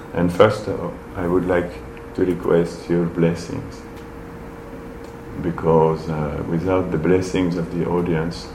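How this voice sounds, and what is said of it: Non-native English accent. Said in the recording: “my bad English accent”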